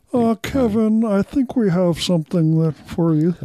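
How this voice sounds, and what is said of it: Imitates another person's voice. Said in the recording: “my Lorne Michaels imitation ... That is pretty good ... there was a lot of relish in that”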